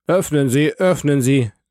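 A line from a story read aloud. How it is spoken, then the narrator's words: Shouted. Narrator (German): rief Villefort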